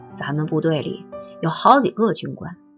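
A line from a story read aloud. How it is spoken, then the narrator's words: Lowered voice, mysterious. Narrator (Chinese): 他压低了声音，做神秘状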